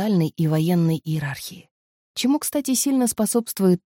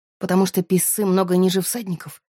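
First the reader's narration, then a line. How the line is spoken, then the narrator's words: Grumbling. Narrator (Russian): проворчала я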